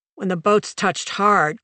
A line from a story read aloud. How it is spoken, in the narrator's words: Kroenke growled